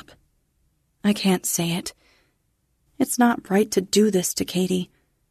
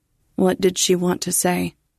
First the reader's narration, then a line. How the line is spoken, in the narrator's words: Katie asks, her voice flat on the line